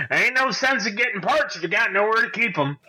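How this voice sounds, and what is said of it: Put-on Southern American accent. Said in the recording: “I don't know why he has that accent now ... he's getting a southern accent”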